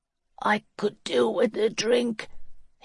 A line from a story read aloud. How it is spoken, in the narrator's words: he said hoarsely